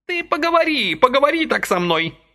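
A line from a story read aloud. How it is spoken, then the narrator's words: Offended shout. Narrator (Russian): закричала она, углядев в сказанном намек на свою прическу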